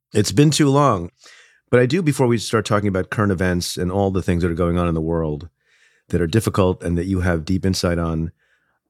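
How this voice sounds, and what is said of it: Sick, strained voice. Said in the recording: “as you can hear, I'm a bit under the weather. So to give my voice a bit of a rest”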